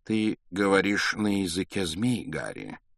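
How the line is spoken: Calm reply. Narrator (Russian): ответил Дамблдор спокойно

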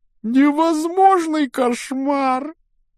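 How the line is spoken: Sobbing. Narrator (Russian): рыдая, Гермиона

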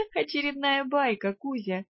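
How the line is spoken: Chuckling. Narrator (Russian): хохотнула я

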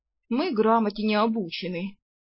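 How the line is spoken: Grumble with budding respect. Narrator (Russian): проворчала та с наклюнувшимся уважением

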